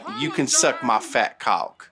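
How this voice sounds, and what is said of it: Put-on southern accent. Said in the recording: “to his southern, like ... in a southern accent”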